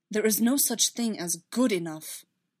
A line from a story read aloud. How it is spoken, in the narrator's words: Obi-Wan said sharply